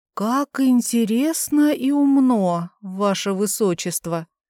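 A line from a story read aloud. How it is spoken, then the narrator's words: Forced, strained reply. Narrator (Russian): Только и сумела из себя выдавить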